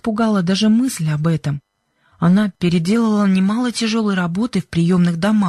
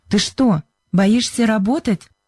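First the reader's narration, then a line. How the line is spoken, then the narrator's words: Sharp. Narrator (Russian): резко сказала Сьюзен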